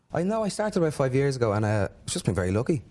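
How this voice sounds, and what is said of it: Irish accent. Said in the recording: “Here's Irish.”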